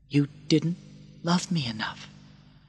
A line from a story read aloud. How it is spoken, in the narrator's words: he said softly